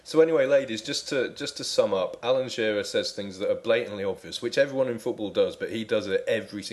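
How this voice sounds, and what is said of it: Usual voice. Nothing is said of it.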